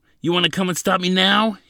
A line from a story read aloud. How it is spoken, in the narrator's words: He yelled